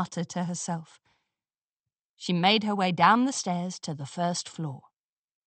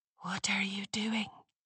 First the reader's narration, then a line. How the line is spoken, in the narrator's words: a voice whispered in her ear